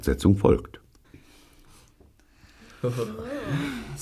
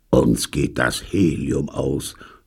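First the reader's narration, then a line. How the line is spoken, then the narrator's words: Groan. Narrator (German): stöhnte Pyecraft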